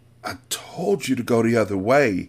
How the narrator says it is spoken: Anissa groaned

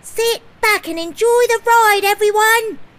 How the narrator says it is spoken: Molly called out

